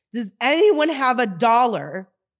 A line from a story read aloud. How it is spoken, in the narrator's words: Clearly frustrated and feeling invisible screamed a painful